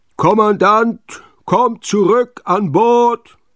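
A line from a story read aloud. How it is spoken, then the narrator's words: Very loud bawling. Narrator (German): grölte er so laut, dass Jule vor Schreck die Borsten zu Berge standen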